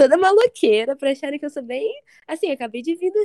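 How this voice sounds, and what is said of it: Usual voice. Nothing is said of it.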